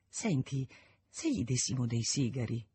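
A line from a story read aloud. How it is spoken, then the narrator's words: Low-voiced suggestion. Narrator (Italian): suggerì a bassa voce Isonet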